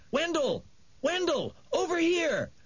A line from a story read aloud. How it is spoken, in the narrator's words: He yelled